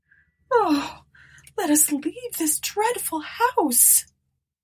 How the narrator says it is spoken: moaned Eunice

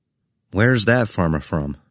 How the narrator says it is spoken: I asked Phil

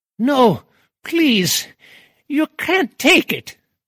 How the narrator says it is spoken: cried the aristocratic old dead soul

